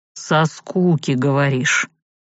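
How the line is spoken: Heavy sigh. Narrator (Russian): Савелий тяжело вздохнул

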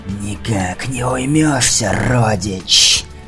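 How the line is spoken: Hissing creature. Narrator (Russian): Шипела тварь

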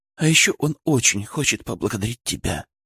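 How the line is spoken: Muffled whisper. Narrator (Russian): прошептала она мне в плечо

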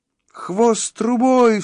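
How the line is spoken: Panicked cry. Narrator (Russian): вскрикнул Шустрик в панике

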